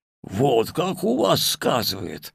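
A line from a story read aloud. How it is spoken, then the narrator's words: Old man laughing. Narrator (Russian): рассмеялся дед Диадох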